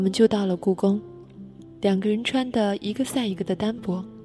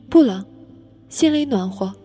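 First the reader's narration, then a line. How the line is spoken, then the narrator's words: Loud, teeth chattering. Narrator (Chinese): 我牙齿打颤，大声嚷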